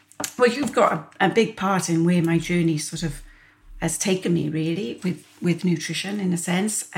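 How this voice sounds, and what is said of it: Welsh accent. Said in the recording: “has the most amazing Welsh accent.”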